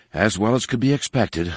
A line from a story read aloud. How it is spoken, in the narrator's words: Leia muttered